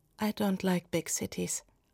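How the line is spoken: Soft, friendly answer. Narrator (German): Sie antwortete leise und freundlich

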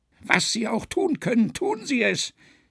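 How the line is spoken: Called out. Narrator (German): rief

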